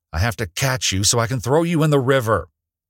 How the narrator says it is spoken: Celia shouted back

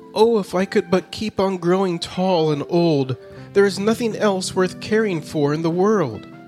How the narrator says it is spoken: remained unsatisfied and would exclaim

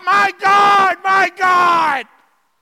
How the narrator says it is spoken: Jesus cried out

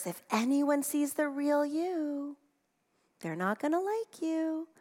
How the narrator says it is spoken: Fear whispers

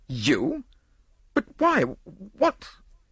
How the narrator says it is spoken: the nobleman spluttered impotently

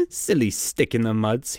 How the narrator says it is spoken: chuckled

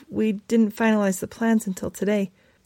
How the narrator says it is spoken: Stephanie stammered

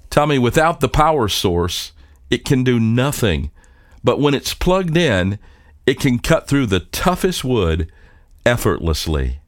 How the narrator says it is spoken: His father chuckled and said

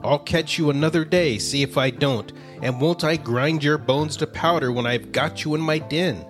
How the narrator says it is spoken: he snarled fiercely

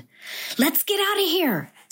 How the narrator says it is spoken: Cesar shouted

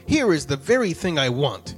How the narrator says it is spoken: he exclaimed

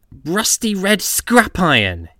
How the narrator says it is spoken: hissed James

